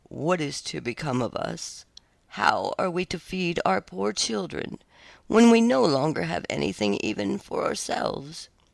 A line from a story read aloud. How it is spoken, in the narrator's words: in his anxiety, he groaned and said to his wife